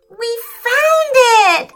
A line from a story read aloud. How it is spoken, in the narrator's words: shouted Felix in delight